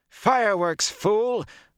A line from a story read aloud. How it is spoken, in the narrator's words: the woman shouted